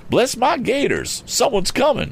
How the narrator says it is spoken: exclaimed Mr

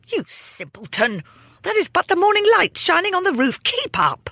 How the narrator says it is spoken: His stepmother yelled

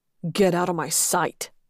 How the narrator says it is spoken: Lex growled

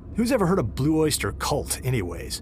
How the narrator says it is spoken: Darnell scoffed in sympathy

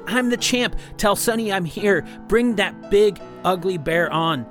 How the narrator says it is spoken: yelling

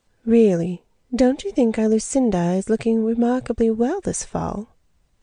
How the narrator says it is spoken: George remarked sweetly

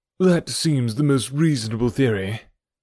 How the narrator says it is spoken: said Stapleton, and he gave a sigh which I took to indicate his relief

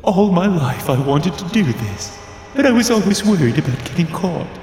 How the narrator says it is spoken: he said, his voice giddy and giggling

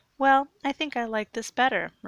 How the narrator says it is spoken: replied Sue

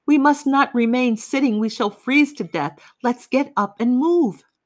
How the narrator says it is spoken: Somebody yelled

